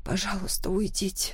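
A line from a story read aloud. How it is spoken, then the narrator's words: Soft whisper. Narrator (Russian): тихо прошептала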